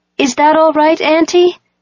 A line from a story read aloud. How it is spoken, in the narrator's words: say, in an even louder voice